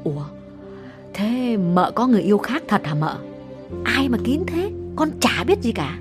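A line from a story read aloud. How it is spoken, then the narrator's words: Lowered voice. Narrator (Vietnamese): hạ giọng bảo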